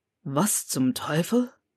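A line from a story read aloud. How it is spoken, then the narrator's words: Murmured. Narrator (German): murmelte er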